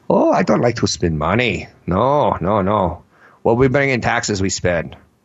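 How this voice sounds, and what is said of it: Bad put-on German accent. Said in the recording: “that's the worst German accent ever”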